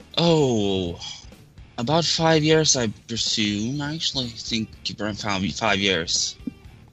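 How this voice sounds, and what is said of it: Norwegian accent. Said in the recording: “I detect a very lovely accent that you have there ... My accent is just pure Norwegian.”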